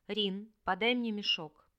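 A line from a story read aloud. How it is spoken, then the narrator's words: Barely audible. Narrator (Russian): Лишь произнесла чуть слышно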